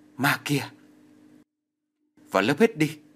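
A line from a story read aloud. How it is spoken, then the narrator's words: Crowd shouting. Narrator (Vietnamese): Các lớp khác thỉnh thoảng lại hét lên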